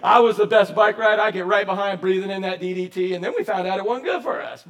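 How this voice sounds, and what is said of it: Nasal accent. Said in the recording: “nasally accents like mine”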